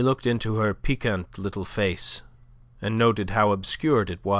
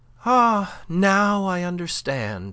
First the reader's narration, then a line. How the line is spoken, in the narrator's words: she cried